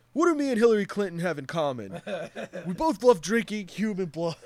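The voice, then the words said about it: Liver King impression. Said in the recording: “you do the voice pretty good ... I think I nailed it that time”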